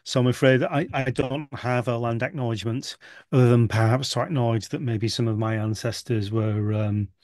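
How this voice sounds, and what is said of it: British English accent. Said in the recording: “I'm not in the US, as you can probably tell by my accent. I'm in the UK”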